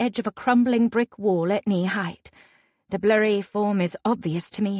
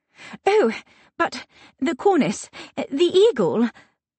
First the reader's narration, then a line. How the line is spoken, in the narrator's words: I stammer